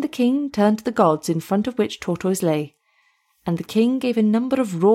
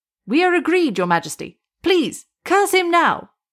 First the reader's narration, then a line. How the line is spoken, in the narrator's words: the people shouted with the voice of approval